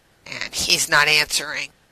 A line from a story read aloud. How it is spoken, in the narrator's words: John said tightly, even as a part of him was immensely relieved